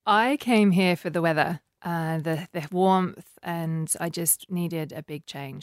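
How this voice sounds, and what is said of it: Slight English accent. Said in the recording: “Do you detect an English accent? It's ever so slight ... I did marry a Kiwi, so that's messed with my accent.”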